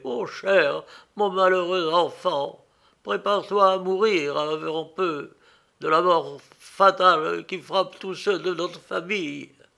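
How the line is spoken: Broken, choked outcry. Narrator (French): s'écria-t-il d'une voix entrecoupée

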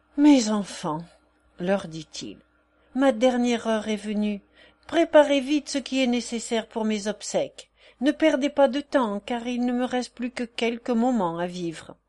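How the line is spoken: Dying, deep sigh. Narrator (French): Le gourou, avec des yeux mourants et poussant un profond soupir

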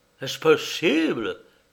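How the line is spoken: Clergyman's exclamation. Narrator (French): s'écria le révérend

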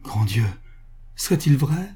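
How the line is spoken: Exclaimed. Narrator (French): s'écria Duterte

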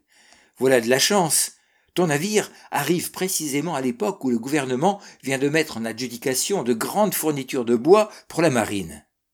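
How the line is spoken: Exclaimed. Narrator (French): s'écria-t-il

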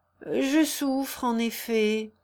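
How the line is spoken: Muffled low voice. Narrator (French): répondit-il d'une voix sourde

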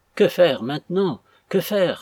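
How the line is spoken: Exclaimed in distress. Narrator (French): s'écria Madame Jérémie, en se tordant les mains dans ce dernier rêve, le plus troublé de tous ceux qu'elle avait faits

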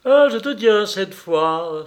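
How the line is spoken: Old man exclaiming joyfully. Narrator (French): s'écria joyeusement le vieillard

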